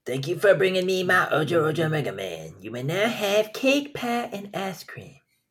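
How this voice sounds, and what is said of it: Cartoon character voice impression. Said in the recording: “Did the voice pretty well there ... It's Cartman. It's Cartman from South Park.”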